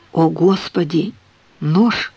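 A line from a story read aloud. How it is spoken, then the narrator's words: Whispered. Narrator (Russian): прошептала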